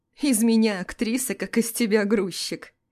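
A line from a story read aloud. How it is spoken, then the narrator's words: Giggling. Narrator (Russian): Хихикаю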